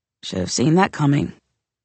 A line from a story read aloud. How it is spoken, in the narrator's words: I muttered